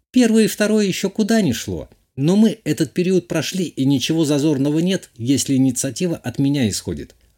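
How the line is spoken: Plain. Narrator (Russian): ответила девушка

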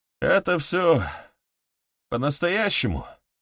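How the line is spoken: Strange-voiced question. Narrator (Russian): странным голосом спросил Морган

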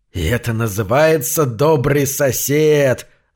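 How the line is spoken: Angry hiss. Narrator (Russian): злобно прошипел

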